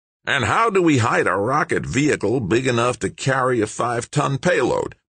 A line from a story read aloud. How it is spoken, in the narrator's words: Tucker snapped, his grating voice almost a snarl